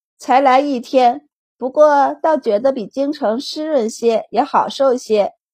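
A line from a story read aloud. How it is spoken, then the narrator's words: Laughing. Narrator (Chinese): 周满笑道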